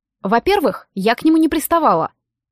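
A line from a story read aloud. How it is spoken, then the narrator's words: Snapping retort. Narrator (Russian): огрызнулась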